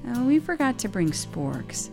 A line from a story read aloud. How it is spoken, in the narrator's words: sighed